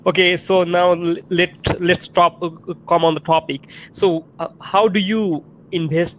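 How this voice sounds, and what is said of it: Non-native English accent. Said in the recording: “my accent because english is not my primary language ... there is no problem understanding your accent”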